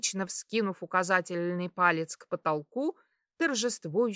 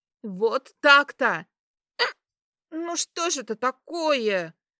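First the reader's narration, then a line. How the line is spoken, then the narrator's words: Annoyed exclamation with hiccups. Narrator (Russian): В сердцах воскликнула я, поскольку снова вернулась надоедливая икота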